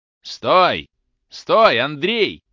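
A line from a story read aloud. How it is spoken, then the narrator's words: Old man shouting. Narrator (Russian): закричал старик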